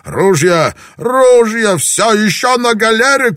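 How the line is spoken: Shout. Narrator (Russian): крикнул он

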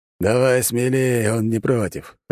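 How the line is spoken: Laughing. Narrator (Russian): хохотнул главный ниндзя

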